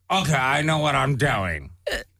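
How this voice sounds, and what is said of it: Imitates another person's voice. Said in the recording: “Okay, that's a good impression.”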